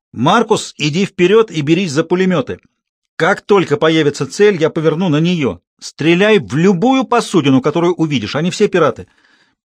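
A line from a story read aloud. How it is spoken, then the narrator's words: Shout. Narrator (Russian): Ронни крикнул боцману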